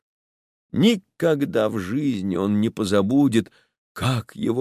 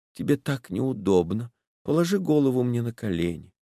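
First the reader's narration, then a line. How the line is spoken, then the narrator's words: Quiet. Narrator (Russian): она сказала тихо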